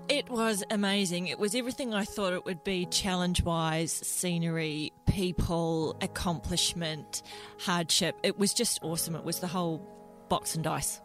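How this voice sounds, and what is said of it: New Zealand accent. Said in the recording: “you're not Australian, you're a Kiwi. ... So you can pick that up in the accent.”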